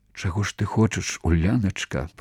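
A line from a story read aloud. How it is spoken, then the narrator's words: Trembling whisper. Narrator (Belarusian): прашаптаў Уладзімір, і голас ягоны уздрыгнуў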